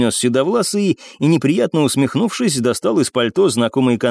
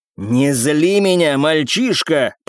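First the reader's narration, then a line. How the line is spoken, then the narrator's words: Hissed through teeth, then louder. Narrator (Russian): процедил мужчина и повысил голос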